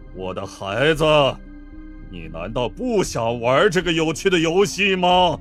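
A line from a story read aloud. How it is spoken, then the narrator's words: Cold voice. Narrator (Chinese): 马里奥声音冰冷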